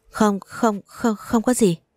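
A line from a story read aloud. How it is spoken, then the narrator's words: Startled trembling stammer. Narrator (Vietnamese): Như ăn trộm bị bắt quả tang, em đã giật bắn mình run rẩy, miệng lắp bắp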